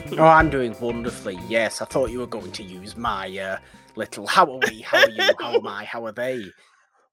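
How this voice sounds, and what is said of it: Smooth, lilting, musical accent. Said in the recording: “You have the nice lilty accent. You're very smooth... It's very lyrical and musical. It reminds me of your way of speaking.”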